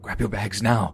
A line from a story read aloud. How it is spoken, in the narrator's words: hissed, trying to keep his voice down